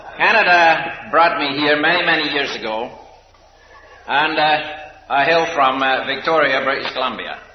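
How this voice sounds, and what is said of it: Scottish accent. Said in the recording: “I'm Scotch by my accent”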